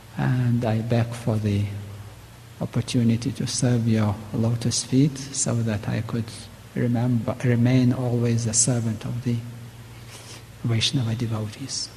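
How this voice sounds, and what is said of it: Strong non-native English accent. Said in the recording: “if my accent is too bad and hardly understandable”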